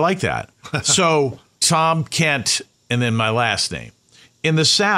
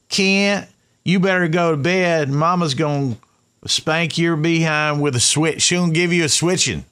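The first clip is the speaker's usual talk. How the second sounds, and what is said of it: Deep Southern accent. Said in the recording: “deep Southern accent.”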